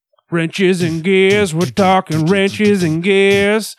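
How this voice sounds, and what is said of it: Country twang. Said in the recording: “Why you got a twang on it? ... It had a twang. ... it was said very much a country.”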